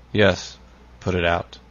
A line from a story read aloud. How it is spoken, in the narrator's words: he said, at last, in a hollow tone